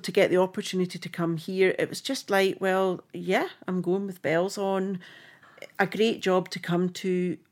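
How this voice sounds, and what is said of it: Rough Scottish accent. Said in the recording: “I'm Scottish through and through ... that accent is as rough as dogs”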